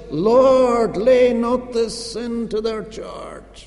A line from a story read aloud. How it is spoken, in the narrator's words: he cried with a loud voice